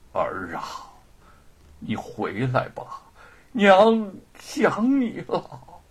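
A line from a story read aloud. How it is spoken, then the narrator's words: Muttering. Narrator (Chinese): 张氏仍在喃喃自语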